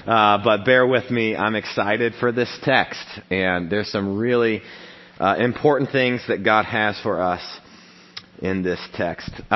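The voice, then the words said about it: Voice much lower than normal. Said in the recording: “my voice is about four octaves lower than normal”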